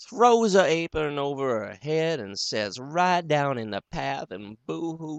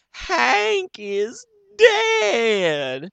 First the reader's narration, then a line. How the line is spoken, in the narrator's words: Elmira gives a whoop, and then hollers out